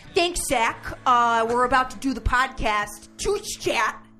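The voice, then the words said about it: Imitates another person's voice. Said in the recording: “do your best Tony impression... Not bad, I guess.”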